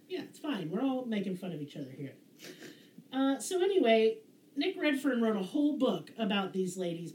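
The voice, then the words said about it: Twangy Southern American accent. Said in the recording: “I'm yeehaw as fuck ... sounding like a human banjo ... twangity ... Twang, I sure do.”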